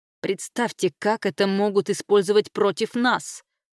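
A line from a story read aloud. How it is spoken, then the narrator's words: Exclaiming. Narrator (Russian): воскликнул Браунрик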